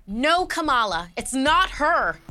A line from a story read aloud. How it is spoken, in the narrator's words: Elena shouted